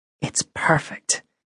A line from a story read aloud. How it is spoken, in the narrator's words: she whispered